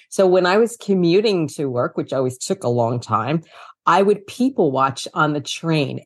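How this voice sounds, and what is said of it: New York City accent. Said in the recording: “I don't know if you can tell from my accent, but I am from New York City, born in Brooklyn, raised in Queens, lifetime New Yorker”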